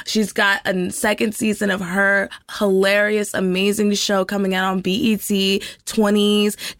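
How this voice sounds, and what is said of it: Hoarse, partly lost voice. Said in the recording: “I lost my voice. It's coming back though.”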